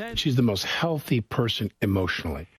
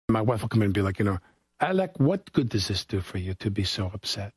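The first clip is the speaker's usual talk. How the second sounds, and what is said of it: Imitates another person's accent. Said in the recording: “imitated his wife's accent”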